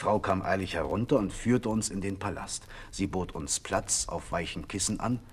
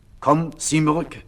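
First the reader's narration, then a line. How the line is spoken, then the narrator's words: Calling out. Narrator (German): rief der Prinz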